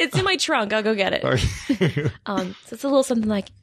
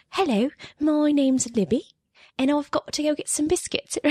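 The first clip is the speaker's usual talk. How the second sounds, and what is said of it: Put-on British or New Zealand accent. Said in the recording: “she's British. Actually, she's from New Zealand, I think ... Kiwi accent is much different than a British accent ... It's usually a little bit higher pitch”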